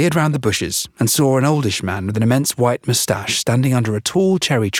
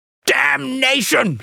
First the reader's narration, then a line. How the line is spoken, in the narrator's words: shouted the Duke